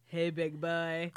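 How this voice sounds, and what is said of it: Exaggerated sexy seductive voice. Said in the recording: “in your sexiest fart voice ... you kind of nailed it”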